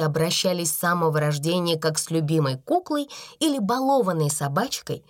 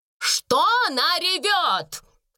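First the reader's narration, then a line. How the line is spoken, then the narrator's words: Thunderous question. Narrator (Russian): громовым голосом спросила она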